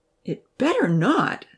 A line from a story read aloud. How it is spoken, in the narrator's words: Sahir exclaimed